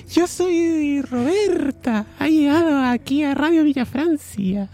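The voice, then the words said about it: Man putting on a woman's voice. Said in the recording (Spanish): “Yo también puedo hacer voz de mujer.”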